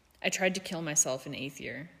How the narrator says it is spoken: Draco said evenly

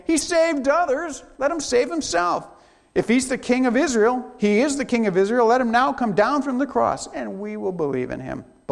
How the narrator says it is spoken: the chief priests also, along with the scribes and the elders, mocked him, saying

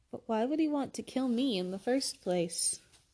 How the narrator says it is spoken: Dumbledore sighed very deeply

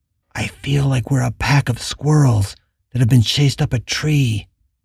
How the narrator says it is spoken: Rhonda whispered

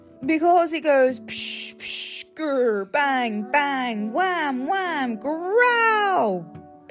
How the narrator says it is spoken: Pig yelled

